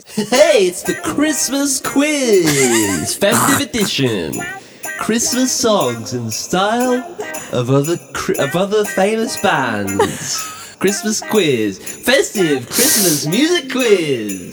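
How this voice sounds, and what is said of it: Radio DJ voice. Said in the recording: “give us your best DJ voice.”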